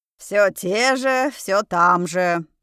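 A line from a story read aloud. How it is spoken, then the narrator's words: Deep bass voice. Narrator (Russian): пробасила Тайра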